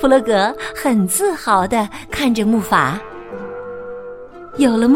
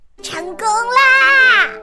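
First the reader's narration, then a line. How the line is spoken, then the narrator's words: Excited shout. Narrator (Chinese): 小鸭兴奋的大喊道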